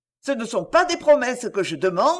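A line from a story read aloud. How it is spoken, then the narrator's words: Exclaiming. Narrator (French): s'écria la Vanoze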